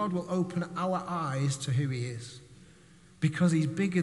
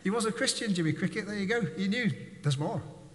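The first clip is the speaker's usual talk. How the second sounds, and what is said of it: Put-on Irish accent. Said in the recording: “My Irish accent, I apologize for anybody watching.”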